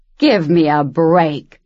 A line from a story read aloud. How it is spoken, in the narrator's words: Miss Sophia said from behind her, in a rough voice Luce had never heard her use